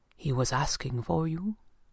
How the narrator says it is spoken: he said quietly

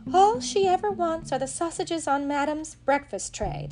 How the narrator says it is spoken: the cook sighed

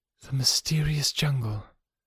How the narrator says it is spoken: she murmured

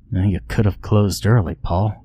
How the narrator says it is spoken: I muttered under my breath, and then with a sigh to Paul

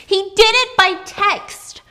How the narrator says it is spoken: she heard her girls come in and she screamed

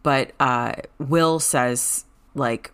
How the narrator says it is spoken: he stammers

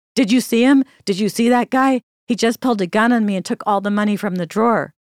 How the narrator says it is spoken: the cashier yelling

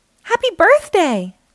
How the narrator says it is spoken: they yelled

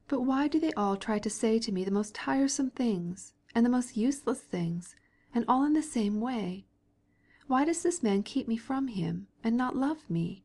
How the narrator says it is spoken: he asked himself sadly

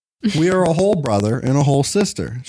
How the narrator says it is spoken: she giggled

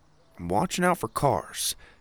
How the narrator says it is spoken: he mumbled

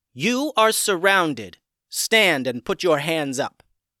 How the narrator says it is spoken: a voice called out firmly

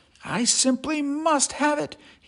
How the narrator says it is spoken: he wistfully cried

